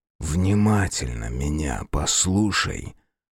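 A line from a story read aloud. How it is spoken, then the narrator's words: Whispered into ear. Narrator (Russian): шептал почти ей в ухо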